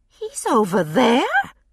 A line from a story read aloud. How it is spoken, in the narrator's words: Her voice rose involuntarily, and she lowered it, self-conscious